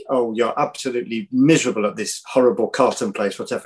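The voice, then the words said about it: Put-on French accent. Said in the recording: “I'm doing a sort of French accent, as you can tell.”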